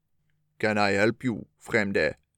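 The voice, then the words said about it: Gruff character voice. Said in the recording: “in a gruff voice”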